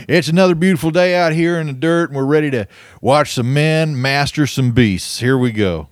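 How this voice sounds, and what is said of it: Cowboy rodeo announcer voice. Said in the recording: “The role was for a retired cowboy rodeo announcer ... "Oh, I thought that was your real accent."”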